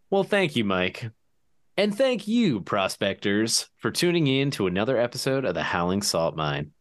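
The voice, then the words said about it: Announcer-style radio voice. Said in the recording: “just immediately switched into radio voice.”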